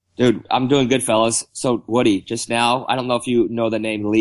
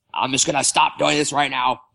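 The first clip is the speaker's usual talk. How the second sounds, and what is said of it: Impression of Lee Hacksaw Hamilton. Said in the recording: “Lee Hacksaw Hamilton ... That was a horrible horrible impersonation ... Little Hacksaw”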